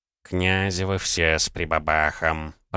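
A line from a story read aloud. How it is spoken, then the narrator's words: Grumbling. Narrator (Russian): проворчал Савелий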